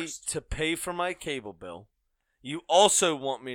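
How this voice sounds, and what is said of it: Usual voice. Nothing is said of it.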